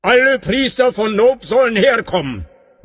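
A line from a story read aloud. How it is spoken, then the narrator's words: Called out. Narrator (German): rief er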